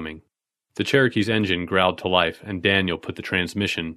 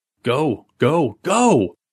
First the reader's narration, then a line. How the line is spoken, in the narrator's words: Billy shouted